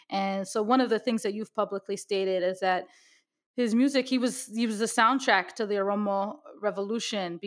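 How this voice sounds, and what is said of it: American accent. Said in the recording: “my very American accent”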